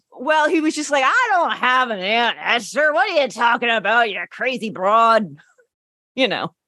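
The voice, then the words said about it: Regional Pennsylvania (Hempstead) accent. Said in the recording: “you do a remarkably good Hempstead accent.”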